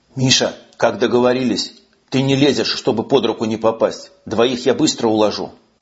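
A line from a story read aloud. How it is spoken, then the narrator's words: Whispered. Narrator (Russian): прошептал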